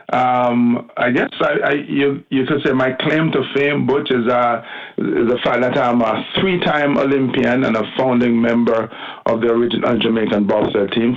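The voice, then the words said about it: Jamaican accent. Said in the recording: “they're guessing by the accent that I'm, he's probably Jamaican ... Born and bred in Jamaica, Kingston”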